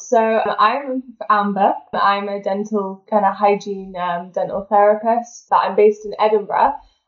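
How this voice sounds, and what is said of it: British regional accent. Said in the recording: “my Australian listeners will have immediately picked up on an accent”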